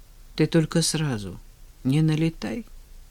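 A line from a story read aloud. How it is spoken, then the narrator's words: Quiet request. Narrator (Russian): тихо попросил Женя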